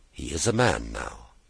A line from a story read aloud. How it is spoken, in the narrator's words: she replied quietly